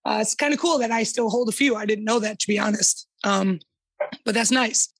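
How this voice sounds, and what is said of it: Hoarse, strained voice. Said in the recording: “I have to apologize for the voice. I've been yelling in multiple practices for months now”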